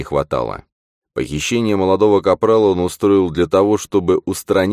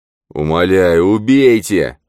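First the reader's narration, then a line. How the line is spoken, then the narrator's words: Hoarse, gurgling moan. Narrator (Russian): хрипло стонал он, пуская кровавые пузыри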